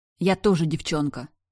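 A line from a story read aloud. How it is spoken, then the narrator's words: Snapped inwardly. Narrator (Russian): огрызнулась я в мыслях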